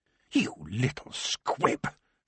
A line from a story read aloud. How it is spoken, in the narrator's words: she hissed